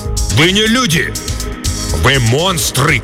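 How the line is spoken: Old man shouting. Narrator (Russian): крикнул старый

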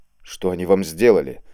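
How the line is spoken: Angry question through bloodied lips. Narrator (Russian): зло спросил Степашин, вытирая кровь с разбитых губ

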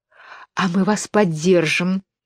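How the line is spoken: Whispered. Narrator (Russian): прошептала королева белых

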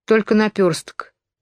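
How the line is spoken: Sad reply. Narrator (Russian): грустно ответила та

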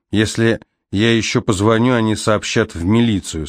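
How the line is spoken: Plain. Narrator (Russian): сказал он

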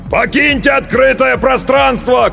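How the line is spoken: Shouted toward barricade. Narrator (Russian): крикнул он в сторону баррикады

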